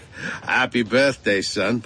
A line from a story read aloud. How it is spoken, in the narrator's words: Pop said with a laugh